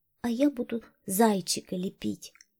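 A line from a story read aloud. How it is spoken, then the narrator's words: Quiet small child. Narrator (Russian): самая маленькая Катя тихо сказала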